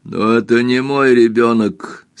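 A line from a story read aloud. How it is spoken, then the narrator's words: Faded, lifeless voice. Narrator (Russian): сказал Эрленд по-прежнему угасшим голосом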